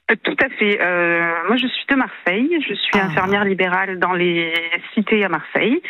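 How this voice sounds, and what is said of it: Singsong southern French Marseille accent. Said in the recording (French): “J'entends un petit accent du Sud... accent chantant de Marseille”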